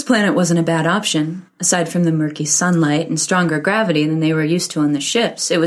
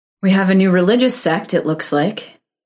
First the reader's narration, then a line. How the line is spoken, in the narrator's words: Karen said dryly